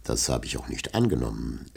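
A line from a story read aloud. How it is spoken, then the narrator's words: Host replying calmly. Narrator (German): entgegnete sein Gastgeber ruhig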